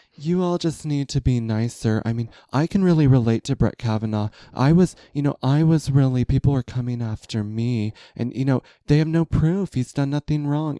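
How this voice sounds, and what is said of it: Imitates another person's voice. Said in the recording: “this is my Camille Grammer impression.”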